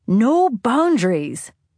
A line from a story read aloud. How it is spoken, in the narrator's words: Siobhan would shout